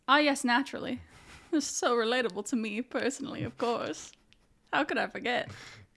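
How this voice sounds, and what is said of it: Old-timey transatlantic accent. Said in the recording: “Good transatlantic accent. I like that. ... old timey”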